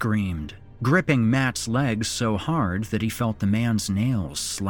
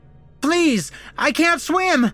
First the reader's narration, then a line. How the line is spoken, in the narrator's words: the accountant kept screaming